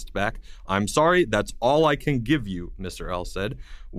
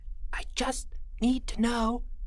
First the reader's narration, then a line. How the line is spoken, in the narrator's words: Jeffrey whispered